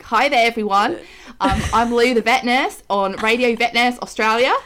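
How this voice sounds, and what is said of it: Put-on Australian accent. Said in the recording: “An Australian accent is not easy. That was quite good.”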